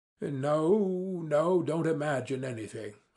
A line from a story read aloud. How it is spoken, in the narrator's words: I cried